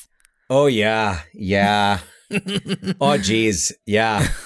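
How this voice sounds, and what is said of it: Put-on Midwestern Minnesota accent. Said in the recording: “The Midwestern Minnesota accent is so delightful.”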